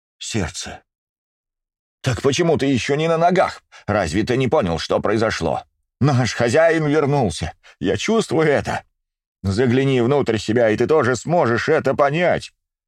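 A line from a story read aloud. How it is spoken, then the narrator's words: Near shout. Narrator (Russian): практически прокричал старший из ватахов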